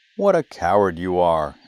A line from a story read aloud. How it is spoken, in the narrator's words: exclaimed his brothers